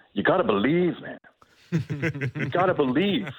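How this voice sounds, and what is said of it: Impression of coach Herdman. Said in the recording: “bad Herdman impression ... It's not bad. It's okay.”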